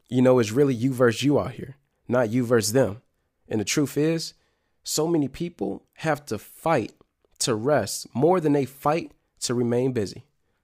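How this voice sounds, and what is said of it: Energized, upbeat voice. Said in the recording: “Y'all can probably hear it in my voice. Like I'm energized. Like I'm feeling great.”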